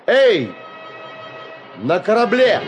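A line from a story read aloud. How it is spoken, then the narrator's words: Loud. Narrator (Russian): громко сказал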